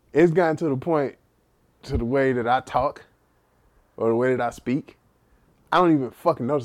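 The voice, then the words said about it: Heavy Texas accent. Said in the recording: “I can't turn off my fucking accent... I have a heavy Texas, Texas accent”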